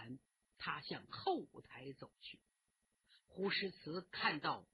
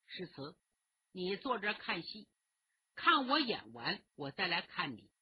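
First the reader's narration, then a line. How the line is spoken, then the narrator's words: Smiling. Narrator (Chinese): 丛飞笑着对他说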